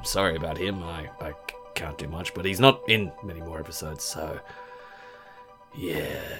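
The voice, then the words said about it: Weak, nearly lost voice. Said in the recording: “I have virtually no voice at the moment. ... Excuse my voice. Pretty much as sick as the dog”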